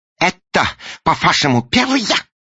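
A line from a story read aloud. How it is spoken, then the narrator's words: Shout. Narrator (Russian): закричал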